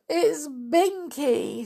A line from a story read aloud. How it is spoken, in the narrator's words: sobbed Molly